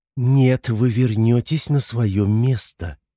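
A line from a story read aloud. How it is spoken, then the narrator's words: Through gritted teeth. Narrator (Russian): процедила стюардесса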